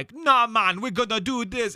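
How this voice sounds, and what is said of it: Imitated heavy Caribbean accent. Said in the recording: “an inconsistent Caribbean accent ... very heavy ... very like cool runnings”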